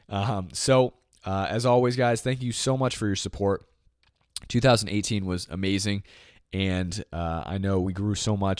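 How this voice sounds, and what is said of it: Strained, failing voice. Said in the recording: “my voice is crashing”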